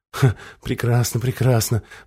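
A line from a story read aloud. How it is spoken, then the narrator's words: Muttering. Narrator (Russian): бормотал Мерса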